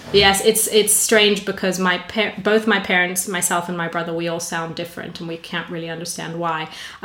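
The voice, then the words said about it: Mostly North American accent. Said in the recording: “I've adopted more of a North American accent than anything else”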